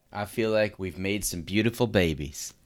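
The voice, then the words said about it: Exaggerated hick accent impression. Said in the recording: “whatever that accent was, it's simply wonderful... It was my impression of Colby Covington's mom... like a hick of some sort”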